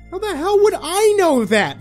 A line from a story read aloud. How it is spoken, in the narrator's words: She screamed